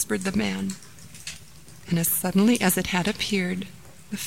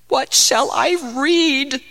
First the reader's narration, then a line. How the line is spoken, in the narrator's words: cried the man